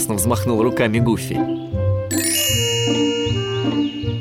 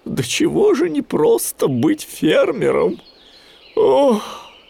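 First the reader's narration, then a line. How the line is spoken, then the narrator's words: Sighing. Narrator (Russian): вздохнул Гуфи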